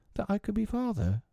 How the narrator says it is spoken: Tootles said indifferently, bashfully or timidly

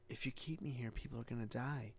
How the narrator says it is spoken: Somebody whispers to her

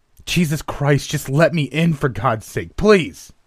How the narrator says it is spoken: He was wailing, and his voice had given way to high-pitched shrieks

